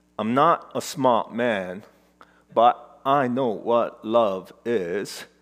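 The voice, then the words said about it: Forrest Gump character impression. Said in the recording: “my best impression”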